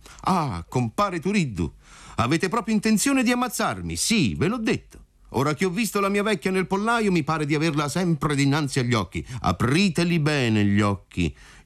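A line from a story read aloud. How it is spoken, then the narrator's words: Shouted. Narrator (Italian): gridò compar Alfio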